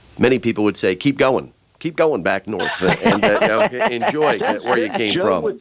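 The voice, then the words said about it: New Jersey accent. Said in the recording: “with the Jersey accent says that. That's what's funny. When you say it, it's even funnier.”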